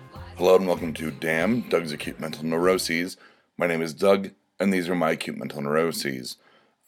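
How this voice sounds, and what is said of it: Slightly hoarse, lower-pitched voice. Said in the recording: “I do have a little frog in my throat, so my voice might be appearing a little lower ... it is affecting my voice a little bit”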